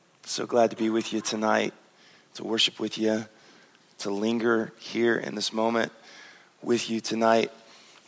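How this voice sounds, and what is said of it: Slightly hoarse voice. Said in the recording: “Voice is a little hoarse”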